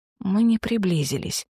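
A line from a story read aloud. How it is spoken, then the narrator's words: Breathless exhale. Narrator (Russian): выдохнула я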